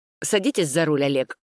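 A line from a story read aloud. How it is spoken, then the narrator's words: Irritated command. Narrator (Russian): раздраженно приказал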